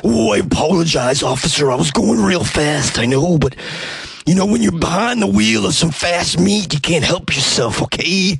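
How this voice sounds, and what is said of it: Gravelly wrestler impression. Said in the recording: “I at one time could do a pretty good Macho Man impression, but it's been a while. ... Here's my impression of Randy Macho Man Savage”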